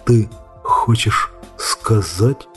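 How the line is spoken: Whisper. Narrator (Russian): прошептал Сэм

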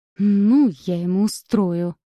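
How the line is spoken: Hissing stranger. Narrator (Russian): прошипел незнакомец

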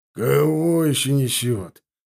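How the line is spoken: General grumbling. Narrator (Russian): проворчал генерал-полковник

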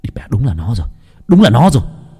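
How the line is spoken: Shouting. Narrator (Vietnamese): Nam hét lên

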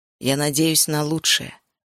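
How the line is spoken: Plain. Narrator (Russian): сказал он

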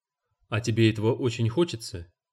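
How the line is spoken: Sighing. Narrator (Russian): Я вздохнул

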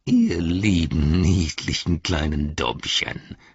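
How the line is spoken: Hissed. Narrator (German): zischte Grishnach

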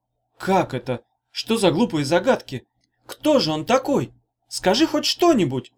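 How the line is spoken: Pleading. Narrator (Russian): взмолилась Таня

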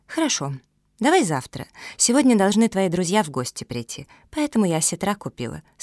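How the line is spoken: Calm. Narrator (Russian): спокойно ответила Вера

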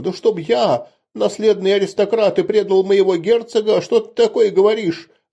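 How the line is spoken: Frightened male squeal. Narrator (Russian): Взвизжал от страха он

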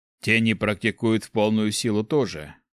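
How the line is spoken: Snorting. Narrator (Russian): хмыкнул Гюш

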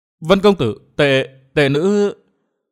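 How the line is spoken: Hesitant, embarrassed. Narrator (Vietnamese): Linh Nhạn mặt đỏ bừng, miệng ngập ngừng

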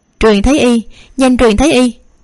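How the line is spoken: Loud urgent shout. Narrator (Vietnamese): Tiểu Lục Công Công lớn tiếng hét ra ngoài

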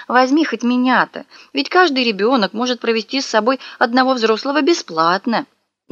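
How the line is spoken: Pleading grandmother. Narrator (Russian): бабушка взмолилась

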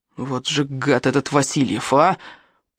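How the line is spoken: Boy groaning in angry adult voice. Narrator (Russian): простонал мальчик Ваха злобным взрослым голосом

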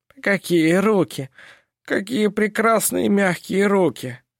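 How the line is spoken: Moaning. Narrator (Russian): стонал он

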